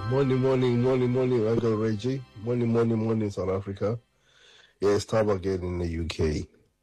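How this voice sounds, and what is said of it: South African accent. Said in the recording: “I will never lose my accent, my man ... proudly and loudly South African ... I'm a proudly South African”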